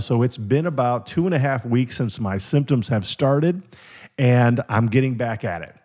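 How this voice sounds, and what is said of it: Weakened voice, not fully recovered. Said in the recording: “My voice is, I would say, maybe about 50 to 60%”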